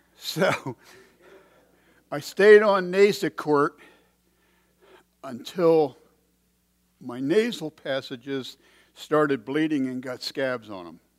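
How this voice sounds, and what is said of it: Strained voice that comes and goes. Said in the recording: “my voice is going to come and go a little bit, but in general, it's a lot better than it was a few weeks ago”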